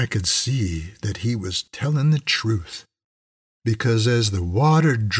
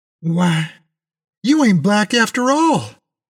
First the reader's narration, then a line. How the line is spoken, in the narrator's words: I almost shouted